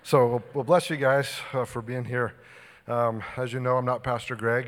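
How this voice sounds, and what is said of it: Slightly out of breath. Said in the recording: “a little out of breath”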